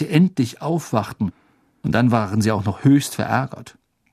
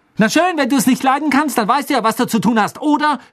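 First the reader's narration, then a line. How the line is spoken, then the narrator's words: Shouting. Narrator (German): schrie Hermine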